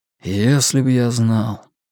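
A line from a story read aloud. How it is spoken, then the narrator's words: Sighing. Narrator (Russian): вздохнул Стью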